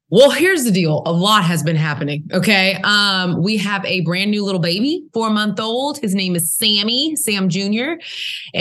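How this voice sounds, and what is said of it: Southern US accent. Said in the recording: “I love the Southern accent.”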